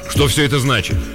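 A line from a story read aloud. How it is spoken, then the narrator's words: Irritated question. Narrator (Russian): раздраженно вопросил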